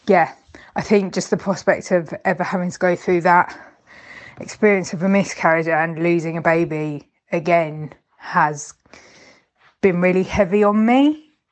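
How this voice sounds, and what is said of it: Emotional, teary voice. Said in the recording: “I'm getting a bit emotional ... I'm getting all, like, teary-eyed”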